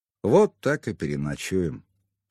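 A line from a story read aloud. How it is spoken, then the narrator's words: Plain. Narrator (Russian): сказал я котенку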